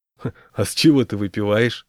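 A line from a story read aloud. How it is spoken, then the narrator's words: Snorting smirk. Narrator (Russian): хмыкнул Миша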